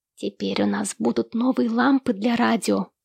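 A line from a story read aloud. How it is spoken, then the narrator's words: Whisper. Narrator (Russian): шепнул Эрни Луи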